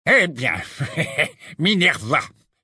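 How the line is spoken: Nasty tone. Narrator (French): dit enfin Fudge d'un ton mauvais

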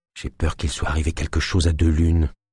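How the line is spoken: Whispered. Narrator (French): chuchota Naya

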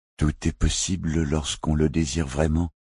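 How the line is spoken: Servant murmuring. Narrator (French): murmura le serviteur

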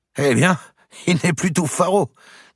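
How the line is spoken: Said laughing. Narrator (French): disait-on en riant

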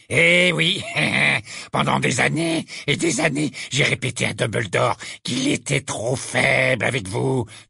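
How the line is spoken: Fierce sneer. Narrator (French): dit Ruzard avec un ricanement féroce

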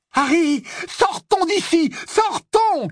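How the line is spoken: Shouting. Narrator (French): cria Ron

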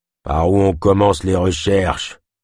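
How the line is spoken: Gruff question. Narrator (French): demanda-t-il d'un ton rogue

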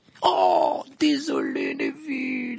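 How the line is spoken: Exclaimed amid laughter. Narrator (French): s'écria Fred parmi les éclats de rire

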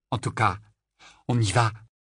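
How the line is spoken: Euphoric exclamation. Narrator (French): s'exclama Rogue, incapable de dissimuler le ton euphorique de sa voix

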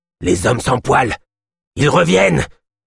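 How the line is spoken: Sudden yelp. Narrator (French): glapit soudain Yosp

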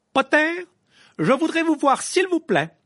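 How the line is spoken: Loud, over the noise. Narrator (French): lança le professeur McGonagall d'une voix suffisamment forte pour couvrir le bruit ambiant

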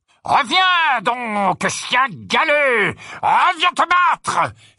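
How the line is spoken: Knight's helmet-muffled shout. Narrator (French): s'écria le chevalier d'une voix étouffée par le haume de son armure

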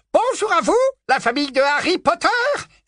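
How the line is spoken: Joyful exclamation. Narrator (French): s'exclama Dédalus d'un ton joyeux

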